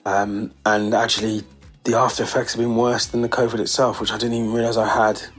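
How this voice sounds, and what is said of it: Sick-sounding voice. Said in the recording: “you can probably tell from my voice, I've been struggling for the last 10 days with COVID”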